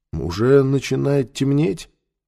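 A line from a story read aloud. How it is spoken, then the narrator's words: Surprised tone. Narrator (Russian): сказал он удивленным тоном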